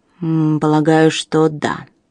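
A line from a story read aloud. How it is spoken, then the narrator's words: Grumbling. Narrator (Russian): проворчал Алластер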